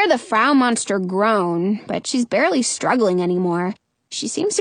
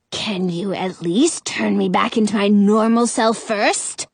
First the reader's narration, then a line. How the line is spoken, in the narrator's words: grumbles